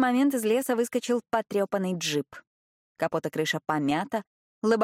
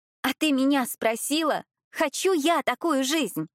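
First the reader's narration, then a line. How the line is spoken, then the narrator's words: Shouting back. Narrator (Russian): кричала ей в ответ Светлана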